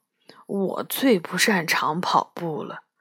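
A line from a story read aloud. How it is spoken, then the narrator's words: Mumbling. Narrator (Chinese): 巴夏嘟嘟囔囔地说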